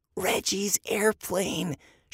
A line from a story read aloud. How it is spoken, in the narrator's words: she whispered to Andy